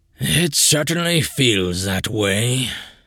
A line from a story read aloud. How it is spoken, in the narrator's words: Charon sighed